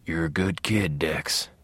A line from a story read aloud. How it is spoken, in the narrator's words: whispered Harry from behind in his feather-hard ghost voice